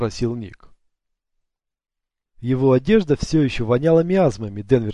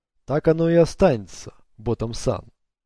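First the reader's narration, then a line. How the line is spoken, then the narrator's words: Plain. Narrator (Russian): сказал Сата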